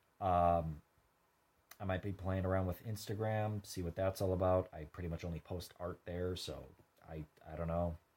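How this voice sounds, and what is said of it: Tired, defeated-sounding voice. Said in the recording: “I'm sorry if I sound defeated. I'm just genuinely really tired.”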